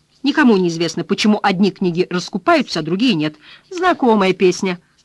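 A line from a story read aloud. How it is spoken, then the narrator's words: Snapped. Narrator (Russian): огрызнулся Гарп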